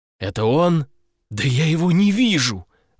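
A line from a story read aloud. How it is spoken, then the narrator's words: Desperate exclamation. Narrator (Russian): в отчаянии воскликнул я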